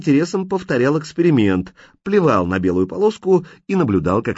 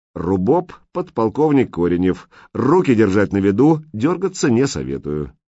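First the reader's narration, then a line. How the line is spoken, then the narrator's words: Official tone. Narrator (Russian): Лис … официальным тоном произнес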